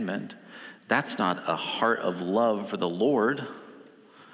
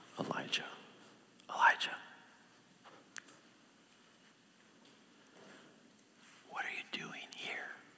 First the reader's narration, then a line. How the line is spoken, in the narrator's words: in the still small voice that he asks Elijah again